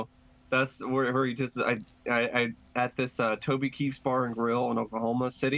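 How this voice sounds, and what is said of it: Usual voice. Nothing is said of it.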